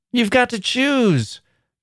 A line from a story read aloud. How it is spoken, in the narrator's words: cried the girls